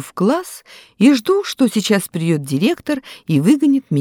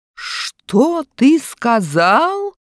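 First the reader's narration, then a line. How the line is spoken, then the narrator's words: Menacing shout. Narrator (Russian): грозно кричит учитель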